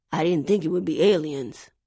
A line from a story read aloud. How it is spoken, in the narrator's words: he mumbled